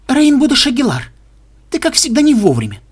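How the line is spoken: Stern. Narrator (Russian): строго сказала доктор

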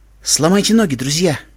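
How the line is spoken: Quiet. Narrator (Russian): тихо сказал Твайлайт

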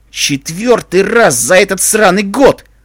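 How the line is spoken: Barking. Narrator (Russian): рявкнул сержант

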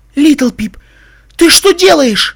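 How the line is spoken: Shrieked. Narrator (Russian): Взвизгнула Вельвет Ремеди

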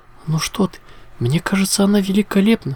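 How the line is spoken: Exclamation. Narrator (Russian): воскликнула Аликорна

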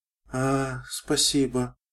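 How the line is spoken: Sleepy. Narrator (Russian): сонно кивнула она

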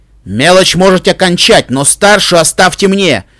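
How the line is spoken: Roar. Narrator (Russian): взревел Итос Ронд

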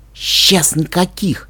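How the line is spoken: Whispered reply. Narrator (Russian): прошептал Каламити в ответ

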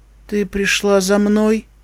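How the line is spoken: Flat colorless voice. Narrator (Russian): бесцветным голосом произнесла Пинкамина

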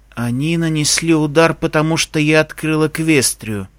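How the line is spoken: Hollow, muffled voice. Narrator (Russian): глухо произнес Майк

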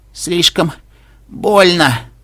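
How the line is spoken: Strained wheeze. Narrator (Russian): сдавленно хрипит Пегаска

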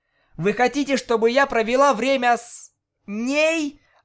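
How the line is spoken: Exclaimed. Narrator (Russian): воскликнула Октавия

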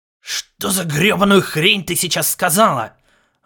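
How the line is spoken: Irritated exhale. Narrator (Russian): раздраженно выдохнул Ларс

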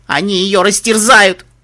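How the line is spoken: Tearful cry. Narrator (Russian): Ария Миднайт со слезами в голосе крикнула

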